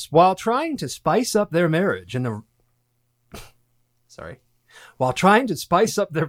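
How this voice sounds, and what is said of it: Bad movie announcer voice. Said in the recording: “I started turning on a bad announcer voice”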